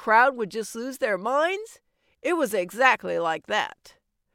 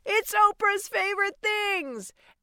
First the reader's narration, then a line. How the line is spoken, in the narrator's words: Oprah used to surprise her audience and yell out